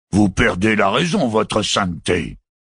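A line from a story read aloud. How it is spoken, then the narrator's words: Roared. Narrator (French): rugit Malthus Akhtar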